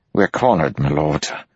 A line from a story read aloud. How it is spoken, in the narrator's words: Melton said grimly